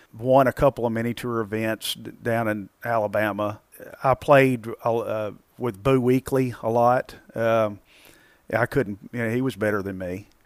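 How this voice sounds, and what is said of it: Southern country accent. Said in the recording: “I have the accent ... those two country boys”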